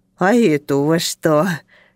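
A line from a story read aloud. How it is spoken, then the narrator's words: Lisping. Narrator (Russian): прошепелявил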